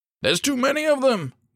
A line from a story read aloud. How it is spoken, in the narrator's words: one of the soldiers cried